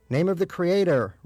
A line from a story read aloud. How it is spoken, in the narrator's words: Rabbi Breyer shouted from inside the nearby stall